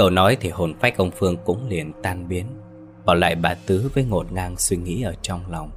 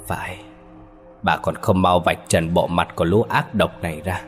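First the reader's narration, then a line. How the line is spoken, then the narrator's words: Harsh, stern. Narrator (Vietnamese): Ông Phương gằn giọng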